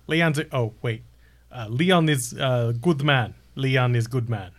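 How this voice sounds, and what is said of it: Put-on accent. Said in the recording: “had to put the accent back on”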